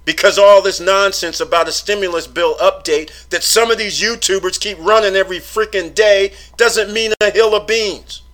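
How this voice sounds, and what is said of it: Raised, loud, exasperated voice. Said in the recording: “I'm raising my voice today”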